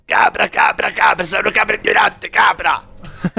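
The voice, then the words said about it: Shouted imitation of another person's voice. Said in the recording (Italian): “Vittorio Sgarbi quando urla ... come fa Sgarbi? ... Imitazione. ... Proprio uguale”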